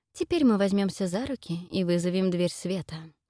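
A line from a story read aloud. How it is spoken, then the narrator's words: Plain. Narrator (Russian): говорит Фелисити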